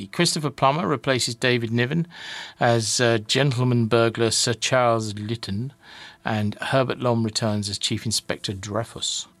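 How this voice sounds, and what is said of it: Put-on French accent. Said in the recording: “I'm doing a French accent, aren't I? Sorry.”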